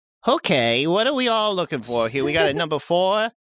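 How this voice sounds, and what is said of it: Odd, salamander-like character voice. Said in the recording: “do a different voice than my standard Mystery County voice ... He sounds like a salamander.”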